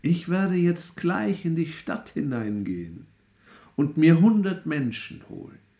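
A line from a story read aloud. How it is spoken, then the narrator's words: Calm voice. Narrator (German): Der Tod sprach mit ruhiger Stimme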